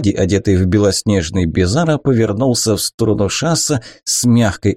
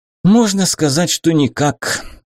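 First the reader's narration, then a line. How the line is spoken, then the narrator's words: Sighing. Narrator (Russian): Шас вздохнул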